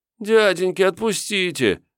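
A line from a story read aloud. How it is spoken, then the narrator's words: Whimpering. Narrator (Russian): захныкал я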